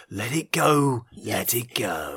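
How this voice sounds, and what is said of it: Imitates another person's voice, sinister. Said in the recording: “Can you do it for Jason Statham? ... Wow, that is Sinister. ... doing a Jason Statham impression.”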